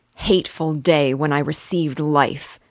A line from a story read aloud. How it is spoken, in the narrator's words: exclaimed in agony